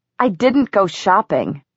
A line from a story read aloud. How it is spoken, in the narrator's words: Alec said furiously